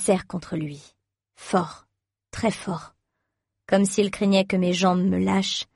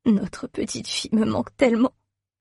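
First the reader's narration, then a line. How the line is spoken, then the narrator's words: Sobbing. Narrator (French): sanglote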